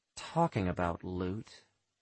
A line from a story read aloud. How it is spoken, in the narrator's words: I murmur